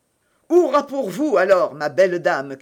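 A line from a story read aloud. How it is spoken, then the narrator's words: Captain shouting. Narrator (French): cria le capitaine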